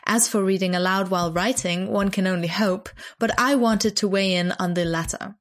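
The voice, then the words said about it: Put-on accent reading aloud. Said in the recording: “I'm going to gonna put on an accent for this one”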